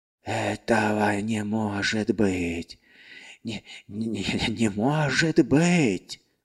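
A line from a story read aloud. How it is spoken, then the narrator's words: Muffled groan. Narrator (Russian): глухо простонал он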